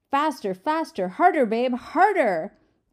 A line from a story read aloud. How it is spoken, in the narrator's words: Mimi shouted